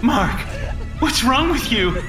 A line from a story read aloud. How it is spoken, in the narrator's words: She cried again